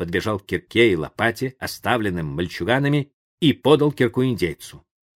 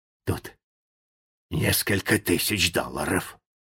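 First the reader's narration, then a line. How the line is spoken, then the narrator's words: Whisper. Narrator (Russian): Джо прошептал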